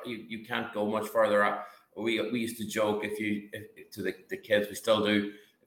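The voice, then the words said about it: Irish accent. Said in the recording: “your accent gives it away. You are an Irishman.”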